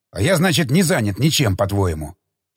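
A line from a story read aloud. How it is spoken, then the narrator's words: Angry growl. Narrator (Russian): Зло прорычал Тигран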